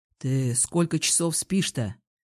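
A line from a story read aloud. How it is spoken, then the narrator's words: Asked in undertone. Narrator (Russian): вполголоса спросил Илья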